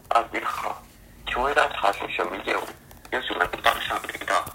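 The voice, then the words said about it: Mainland Chinese accent. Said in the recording (Chinese): “会有一个中国口音的专员”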